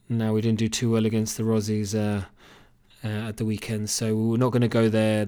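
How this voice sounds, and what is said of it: English Cambridge accent. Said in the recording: “this isn't a Kerry accent by any stretch of the imagination. It's actually a Cambridge accent.”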